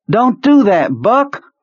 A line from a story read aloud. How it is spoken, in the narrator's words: Kurtz shouted